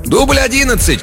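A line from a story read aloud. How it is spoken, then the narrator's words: Shouted. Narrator (Russian): крикнул ассистент режиссера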